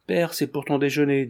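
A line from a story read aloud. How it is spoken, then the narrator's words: Timid. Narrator (French): dit timidement Georget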